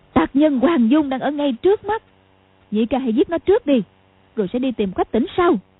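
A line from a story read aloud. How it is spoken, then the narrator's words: Shout. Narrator (Vietnamese): Cầu Thiên Xích quát lên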